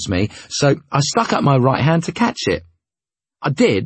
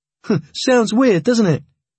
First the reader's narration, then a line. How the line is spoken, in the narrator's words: he laughed